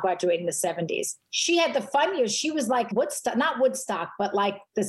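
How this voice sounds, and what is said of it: Noticeable regional accent. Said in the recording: “Do you hear the accent now? Do you hear that accent?”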